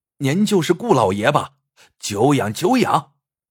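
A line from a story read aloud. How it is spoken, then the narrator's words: Loud. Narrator (Chinese): 那人高声说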